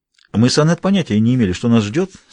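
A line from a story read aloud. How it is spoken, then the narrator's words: Plain. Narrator (Russian): сказала Таппинс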